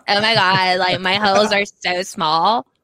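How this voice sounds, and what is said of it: Scottish-accented valley girl voice. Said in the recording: “What's that voice you're doing? Is that a valid girl, but she's from a Scottish valley? ... Scottish valley girl”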